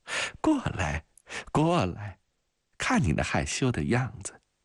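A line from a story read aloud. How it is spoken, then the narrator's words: Tearful encouraging mother. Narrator (Chinese): 母亲鼓励着她，眼泪汪汪地笑着说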